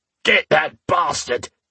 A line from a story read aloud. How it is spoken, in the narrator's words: Sigyn roared